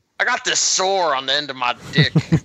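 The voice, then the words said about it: Put-on Southern US accent. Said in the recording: “Why do they have southern accents? ... They're from Florida.”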